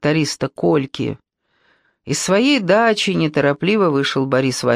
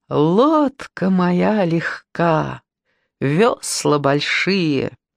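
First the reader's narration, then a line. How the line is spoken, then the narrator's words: High bell-like singing. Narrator (Russian): Надя вдруг запела своим высоким, колокольчатым голоском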